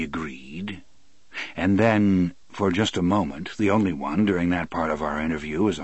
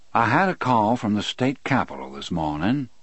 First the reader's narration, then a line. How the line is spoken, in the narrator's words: the warden said evenly